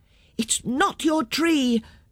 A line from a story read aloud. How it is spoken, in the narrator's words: shouted the children